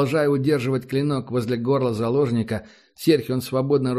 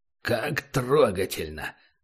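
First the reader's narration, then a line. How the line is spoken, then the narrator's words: Strained. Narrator (Russian): выдавил из себя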